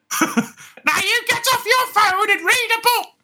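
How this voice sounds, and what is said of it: Old lady character voice. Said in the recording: “I don't even think I sound that convincingly like an old lady. I just like doing the voice.”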